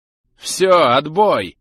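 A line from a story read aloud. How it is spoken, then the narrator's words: Harsh bark. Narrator (Russian): рявкнул Кауфман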